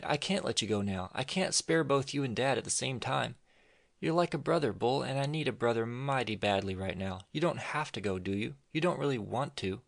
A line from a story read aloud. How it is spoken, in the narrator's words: she cried